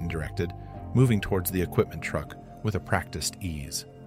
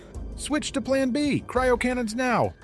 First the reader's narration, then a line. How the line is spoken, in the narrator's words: Peyton's shout cut through the chaos